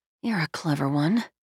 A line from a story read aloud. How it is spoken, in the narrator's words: she murmured